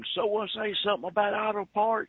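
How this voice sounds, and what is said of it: Imitates a wrestler's voice. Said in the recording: “I'll do my best Wildfire Tommy Rich impersonation ... he used to be a popular wrestler”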